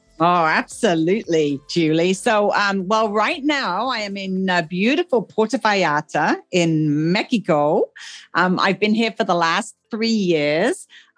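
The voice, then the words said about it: English accent. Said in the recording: “Originally, I am from England. Some people hear that from my accent.”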